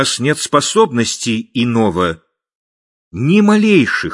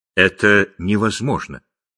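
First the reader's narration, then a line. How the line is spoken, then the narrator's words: Plain. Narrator (Russian): ответила ночь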